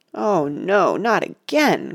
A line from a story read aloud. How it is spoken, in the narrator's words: groaned poor